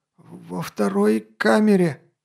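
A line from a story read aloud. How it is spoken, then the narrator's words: Hoarse guard. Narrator (Russian): просипел стражник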